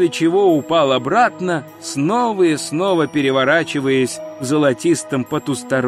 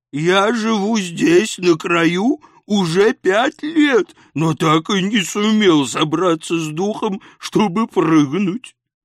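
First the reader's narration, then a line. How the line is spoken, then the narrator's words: Booming drone. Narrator (Russian): прогудел Тифис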